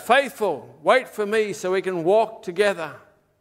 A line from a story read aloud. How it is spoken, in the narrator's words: In excitement, Christian shouted